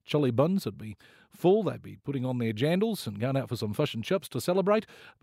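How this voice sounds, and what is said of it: Put-on New Zealand accent. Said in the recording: “that lovely New Zealand lilt ... the sexiest accent in the world”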